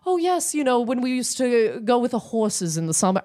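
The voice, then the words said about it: Posh rich-person accent. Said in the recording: “you have, like, an accent. You have, like, a rich accent.”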